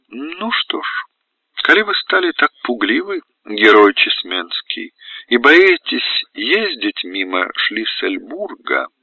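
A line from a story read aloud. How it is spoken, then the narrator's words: Light social laugh. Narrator (Russian): она светски засмеялась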